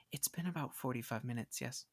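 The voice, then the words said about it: Very quiet whisper. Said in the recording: “a familiar and very quiet voice whisper.”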